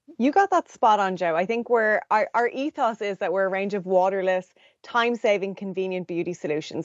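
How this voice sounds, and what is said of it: Irish accent. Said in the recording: “If you can tell from the accent, she's actually joining us from Dublin, Ireland”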